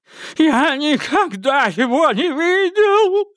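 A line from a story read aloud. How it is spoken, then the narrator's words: Shrieked. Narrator (Russian): взвизгнул убийца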